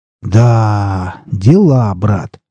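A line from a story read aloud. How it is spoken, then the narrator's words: Proud drawl. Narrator (Russian): протянул Александр с гордостью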